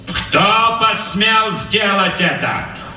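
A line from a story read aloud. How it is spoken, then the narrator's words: Loud question. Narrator (Russian): громко спросил капрал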